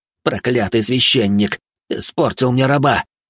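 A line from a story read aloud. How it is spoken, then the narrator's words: Angry cursing hiss. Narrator (Russian): Прошипел он, изрыгая ругательство в сторону неизвестного мне служителя церкви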